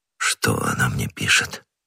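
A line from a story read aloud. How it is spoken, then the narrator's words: Weak, wounded voice. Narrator (Russian): слабым голосом спросил Бекингем, истекая кровью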